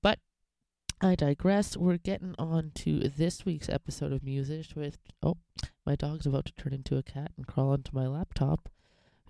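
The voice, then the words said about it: Congested, nasal, fuzzy sick voice. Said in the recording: “voice being a bit different, I am still battling a bit of an illness... a bit of a nasty, nasally coughy phlegmy thing... my voice is a little bit more warm and fuzzy than I intend”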